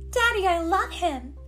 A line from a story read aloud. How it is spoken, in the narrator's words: cried